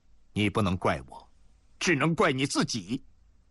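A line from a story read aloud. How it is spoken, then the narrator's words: Cold. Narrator (Chinese): 宋忠面对着柳若松冷冷地说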